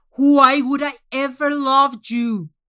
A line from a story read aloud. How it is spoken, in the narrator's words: He screamed it, loudly enough that it caused a quake